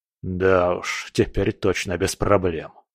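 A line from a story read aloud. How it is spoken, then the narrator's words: Grumbling. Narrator (Russian): проворчал скала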